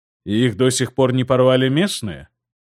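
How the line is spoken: Skeptical snort. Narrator (Russian): хмыкнул Сигурд

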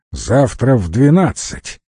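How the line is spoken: Stern reminder. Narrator (Russian): строго напомнил напоследок Леха

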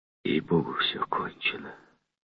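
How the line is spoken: Whisper. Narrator (Russian): прошептал Бенсингтон

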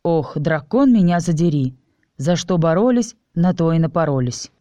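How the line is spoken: Sighing. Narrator (Russian): вздохнул я

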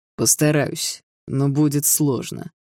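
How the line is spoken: Through gritted teeth. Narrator (Russian): сквозь зубы ответил Даррелл

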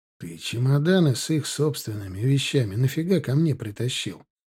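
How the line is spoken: Whisper. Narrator (Russian): Прошептал я Марату, улучив момент

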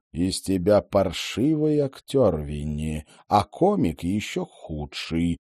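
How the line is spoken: Icy tone. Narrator (Russian): ледяным тоном сказал Сакайи

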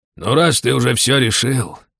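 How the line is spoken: Exhaled. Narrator (Russian): выдохнул Лаош

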